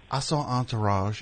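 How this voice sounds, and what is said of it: Exaggerated southern drawl. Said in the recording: “I don't know why I'm giving him this accent as if he's like, as if it's Foghorn Leghorn. He's got the slightest hint of a southern accent.”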